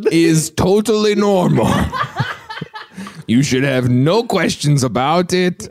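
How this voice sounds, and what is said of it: Alien voice, Borat-like accent. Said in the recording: “this alien has an accent or if that alien is doing a Borat impression”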